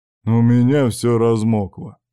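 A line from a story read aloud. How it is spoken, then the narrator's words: Heavy sigh. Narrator (Russian): тяжело вздохнул Шохин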